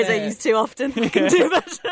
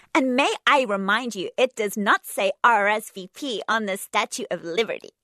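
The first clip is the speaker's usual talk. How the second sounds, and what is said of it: Bad put-on American accent. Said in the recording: “doing an American accent? ... So bad! ... I can do better.”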